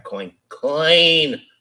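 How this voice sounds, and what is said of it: Bad impression of cartoon mummy. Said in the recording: “do a bad impression of the mummy from one of the original Scooby-Doo episodes”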